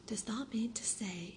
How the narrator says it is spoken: cried Martha

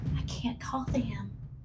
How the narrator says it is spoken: he whispered

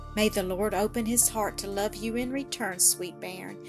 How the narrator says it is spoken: sighed the good woman

